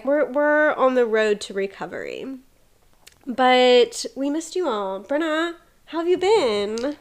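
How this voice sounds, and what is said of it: Sniffly, congested voice. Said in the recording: “I'm still a little sniffly. So, sorry my voice sounds a little crazy.”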